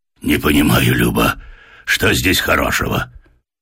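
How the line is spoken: Muffled hoarse male grumble. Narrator (Russian): пробурчал из-под пледа осипший от дороги мужской голос

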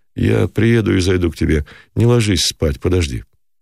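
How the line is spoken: Overly calm. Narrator (Russian): добавил излишне спокойно

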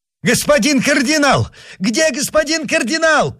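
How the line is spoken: Shouting. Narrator (Russian): кричал

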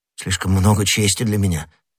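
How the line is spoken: Muttered. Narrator (Russian): пробормотал начальник стражников

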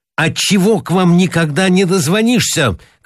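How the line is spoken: Shouting. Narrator (Russian): кричал он

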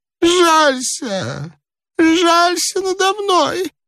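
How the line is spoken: Old man pleading plaintively. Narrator (Russian): жалобно молил старик

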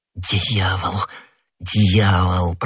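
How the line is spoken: Muttered. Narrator (Russian): пробормотал Д'Артаньян

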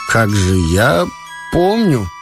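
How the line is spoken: Uncertain mumbling. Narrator (Russian): неуверенно забормотал Ромашов

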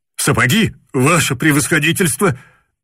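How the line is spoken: Breathless shout. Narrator (Russian): Задыхаясь, прокричал он

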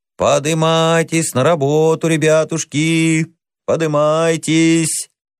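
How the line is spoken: Sing-song shouting. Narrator (Russian): сторож нараспев кричал

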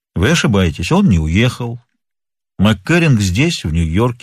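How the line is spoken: Calm declaration. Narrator (Russian): спокойно заявил Нат Пинкертон

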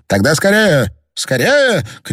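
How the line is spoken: Urgent shout. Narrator (Russian): крикнул Прук

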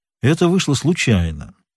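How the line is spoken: Calm reply. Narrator (Russian): спокойно ответил Пинкертон

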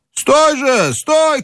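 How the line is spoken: Several voices shouting. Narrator (Russian): кричали голоса

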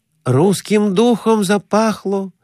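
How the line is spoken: Joyful. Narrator (Russian): радостно говорил Конурин

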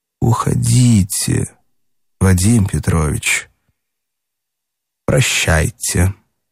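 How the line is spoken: Very quiet. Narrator (Russian): Катя проговорила совсем тихо

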